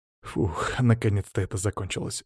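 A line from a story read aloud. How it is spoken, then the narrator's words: Relieved exhale. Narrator (Russian): выдохнул я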